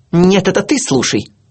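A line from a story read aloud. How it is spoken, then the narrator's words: Barking snap. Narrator (Russian): рявкнула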